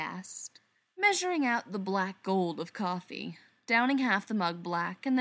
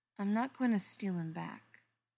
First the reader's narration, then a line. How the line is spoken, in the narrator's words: she said quietly